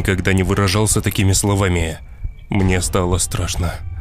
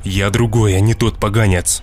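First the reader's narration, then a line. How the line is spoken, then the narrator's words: Angry son's voice. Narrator (Russian): злобно сказал сын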